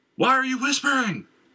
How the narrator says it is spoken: she said, again in a loud voice

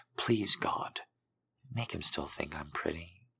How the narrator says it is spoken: she whispered

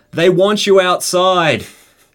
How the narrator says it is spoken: someone yell out

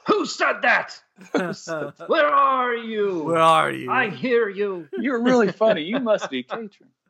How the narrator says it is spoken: someone just yell out

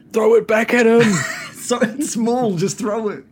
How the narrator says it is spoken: Gildan yells out to Lovejoy

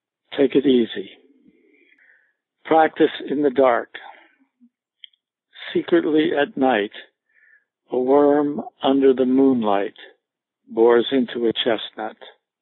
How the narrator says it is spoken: with a half-smile, he said calmly

